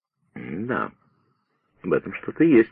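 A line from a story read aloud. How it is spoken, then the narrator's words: Slow speech. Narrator (Russian): медленно проговорил Пиркс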